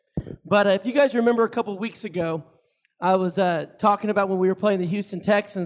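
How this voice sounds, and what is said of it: Congested, hoarse voice that cracks. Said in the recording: “my irritating voice ... Got a little head cold ... if it cracks a little bit”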